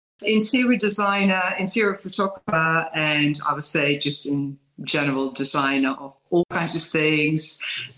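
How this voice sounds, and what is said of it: Dutch accent in English. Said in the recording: “I'm raised in Holland, but lived for many years already in English-speaking countries. So I know where my accent is coming from.”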